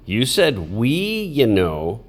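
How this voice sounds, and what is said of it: Sing-song teasing gotcha voice. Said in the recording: “sang in that gotcha voice”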